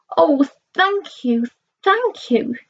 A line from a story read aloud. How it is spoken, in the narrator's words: she chirped